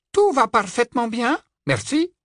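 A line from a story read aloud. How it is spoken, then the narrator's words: Clear crisp tone. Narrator (French): répondit Lupin d'un ton clair et net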